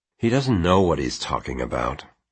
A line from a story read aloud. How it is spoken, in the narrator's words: Quentin muttered